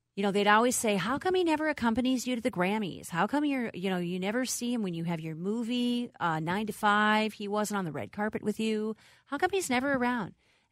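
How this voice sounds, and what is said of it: Southern US country accent. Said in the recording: “you do a very good country accent, southern accent ... I used to live in Arkansas ... sometimes it just kind of creeps back”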